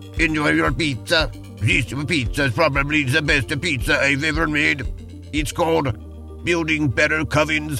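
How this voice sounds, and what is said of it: Badly done put-on accent. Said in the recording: “That is a horrible accent ... I think it's your worst one yet ... that is a tragic accent”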